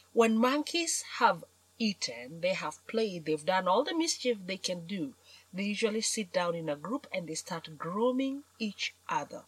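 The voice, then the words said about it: African accent. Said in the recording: “I come from Africa, and you may have figured out from my accent.”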